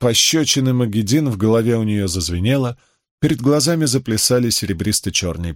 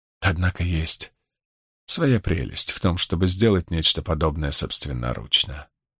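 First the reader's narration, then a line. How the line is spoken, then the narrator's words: Whisper. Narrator (Russian): прошептала избранная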